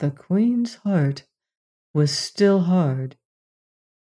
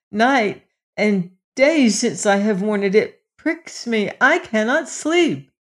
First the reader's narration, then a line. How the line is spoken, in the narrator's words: cried the queen's son again